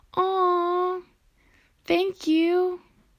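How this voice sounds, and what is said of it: High-pitched excited voice. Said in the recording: “My voice gets really high”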